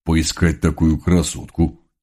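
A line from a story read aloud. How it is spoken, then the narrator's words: Thug's sincere growl. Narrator (Russian): Честно прорычал один из громил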